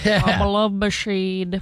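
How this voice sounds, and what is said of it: Imitates another person's voice. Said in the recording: “It is a hard impersonation ... the impressionist on this show. You're doing an excellent job.”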